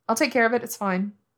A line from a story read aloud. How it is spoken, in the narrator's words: Wei Wuxian says quickly, temporary relief making him lightheaded